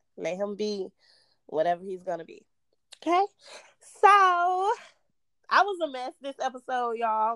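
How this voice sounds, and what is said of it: Slightly hoarse, worn voice. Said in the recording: “kind of lost my voice a little ... a little hungover”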